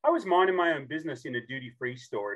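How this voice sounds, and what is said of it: Australian accent. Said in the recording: “I'm a true southern accent from the southern hemisphere, born and raised in Australia.”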